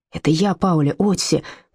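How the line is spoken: Urgent hiss. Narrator (Russian): прошипел Отто

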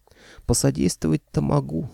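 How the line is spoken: Sigh. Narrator (Russian): вздохнул Никита

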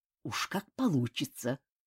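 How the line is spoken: Through gritted teeth. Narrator (Russian): сквозь зубы ответил Ким

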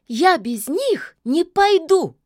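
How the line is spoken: Witch exclaiming. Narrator (Russian): воскликнула яга

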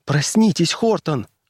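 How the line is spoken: Frightened voice. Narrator (Russian): голос Кэти звучал испуганно

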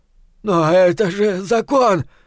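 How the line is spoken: Sudden furious shout. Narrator (Russian): вдруг свирепея в ответ закричал тот

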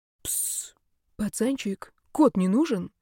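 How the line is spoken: Quiet sly male voice. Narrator (Russian): тихо и довольно-таки ехидно спросил мужской звучный голос прямо за моими кустами

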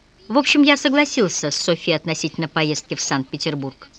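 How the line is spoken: Carefree announcement. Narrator (Russian): он беззаботным тоном объявил

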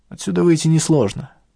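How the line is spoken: Amused snort. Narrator (Russian): хмыкнул Ахмед

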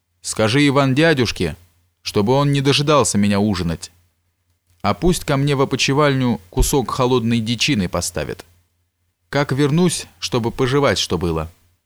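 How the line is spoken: Shout. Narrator (Russian): крикнул конюху

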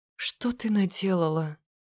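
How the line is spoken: Soft whisper, young woman. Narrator (Russian): Слышу тихий шепот от девушки напротив

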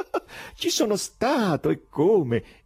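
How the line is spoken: Laughing exclamation. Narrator (Italian): esclamò sempre ridendo

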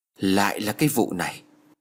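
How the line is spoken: Old woman muttering. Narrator (Vietnamese): Bà lẩm bẩm nói

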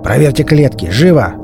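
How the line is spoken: Irritated growl. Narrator (Russian): с раздражением прорычал Боча

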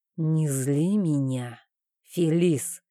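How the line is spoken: Muffled, low voice. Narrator (Russian): глухо произнес он

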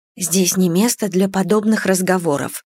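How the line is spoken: Whispering. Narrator (Russian): прошептала мама

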